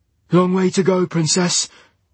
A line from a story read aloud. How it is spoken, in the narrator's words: he said breathlessly